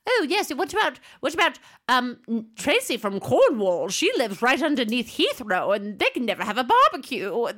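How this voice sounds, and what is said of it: Put-on English accent. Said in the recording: “the English people were like ... I'm doing a perfect accent.”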